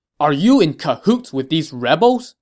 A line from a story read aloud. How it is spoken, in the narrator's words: Jin Xuan said angrily